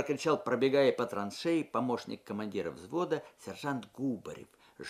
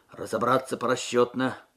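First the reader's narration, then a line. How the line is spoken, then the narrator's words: Muffled command. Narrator (Russian): приглушенным голосом скомандовал сержант Губарев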